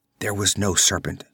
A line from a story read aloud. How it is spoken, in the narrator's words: she whispered